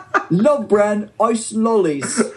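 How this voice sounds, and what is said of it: Put-on British accent. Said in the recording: “hard to say without a British accent?”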